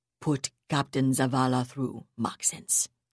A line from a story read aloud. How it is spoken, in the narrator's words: he said coldly